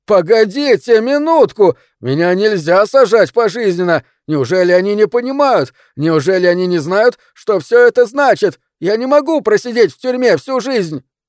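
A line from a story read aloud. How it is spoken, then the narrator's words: Desperate full shout. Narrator (Russian): изо всех сил закричал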